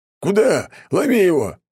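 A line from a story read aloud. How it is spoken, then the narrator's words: Distant shouting from below. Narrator (Russian): орали где-то внизу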